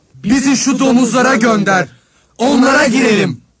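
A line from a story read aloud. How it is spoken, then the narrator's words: Pleading, several voices. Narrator (Turkish): diye yalvardılar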